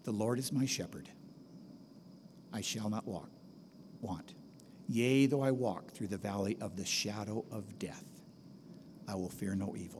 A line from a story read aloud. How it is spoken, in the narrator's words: Paul Saxman, a young Marine Lance Corporal, very quietly started saying